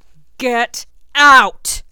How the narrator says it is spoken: Malfoy roars, losing his facade of complacency

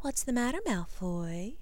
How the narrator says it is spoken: cooed, a huge grin gracing her generous mouth

